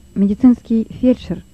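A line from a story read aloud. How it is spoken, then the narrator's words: Plain. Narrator (Russian): сказал Лёва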